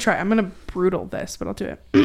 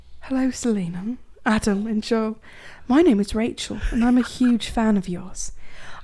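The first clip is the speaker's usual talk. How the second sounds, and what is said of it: Put-on English accent. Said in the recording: “read this in an English accent ... read in an English accent”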